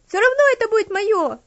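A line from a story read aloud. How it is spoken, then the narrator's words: Child's demanding shout. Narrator (Russian): требовательно крикнула девочка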